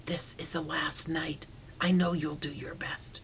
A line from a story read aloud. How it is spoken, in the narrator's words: I whispered